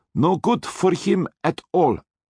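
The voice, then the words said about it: Menacing Austrian accent. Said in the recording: “in his menacing Austrian accent”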